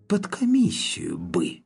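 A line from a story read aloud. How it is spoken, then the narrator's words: Eerie disembodied whisper. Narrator (Russian): странный бесплотный голос прошептал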